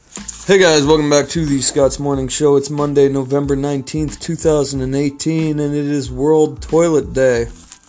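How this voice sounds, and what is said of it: Out of breath, slightly sick voice. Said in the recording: “that took me out of breath there. I am a little sick today.”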